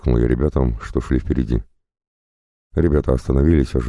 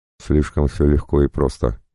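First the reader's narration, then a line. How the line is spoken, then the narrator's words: Plain. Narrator (Russian): ответил я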